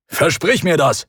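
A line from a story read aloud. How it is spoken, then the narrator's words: Barked. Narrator (German): bellte Trankadios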